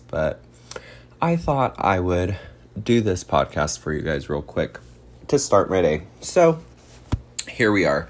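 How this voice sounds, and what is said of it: Groggy early-morning voice. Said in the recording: “it's early, and so my voice sounds a little like morning voice”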